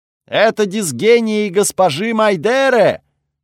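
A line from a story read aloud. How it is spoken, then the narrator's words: Delighted shout from behind. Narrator (Russian): с восторгом крикнули позади меня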